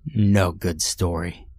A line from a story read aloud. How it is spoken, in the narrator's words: grunted